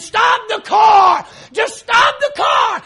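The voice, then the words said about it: Screaming. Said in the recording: “I'm screaming,”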